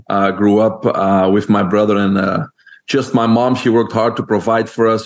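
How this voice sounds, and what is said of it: Belgian accent. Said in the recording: “people can hear my accent. I'm originally from Belgium.”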